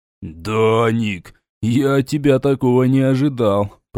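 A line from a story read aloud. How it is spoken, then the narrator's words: Drawling. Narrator (Russian): протянул Ярут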